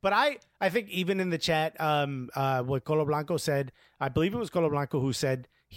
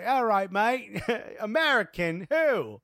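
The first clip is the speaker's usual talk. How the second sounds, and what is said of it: Attempted English accent. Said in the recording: “that's the best I could do with an English accent”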